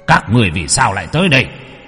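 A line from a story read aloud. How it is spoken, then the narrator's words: Shouting. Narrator (Vietnamese): Âm sai kia quát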